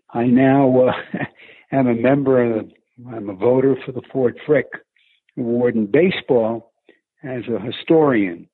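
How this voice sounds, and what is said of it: New York accent. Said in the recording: “a little bit of a Northeast accent in your voice ... the thick New York accent”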